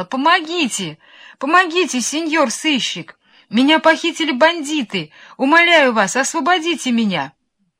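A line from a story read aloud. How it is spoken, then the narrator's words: Girl's thin-voiced cry. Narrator (Russian): девочка тоненьким голосом кричала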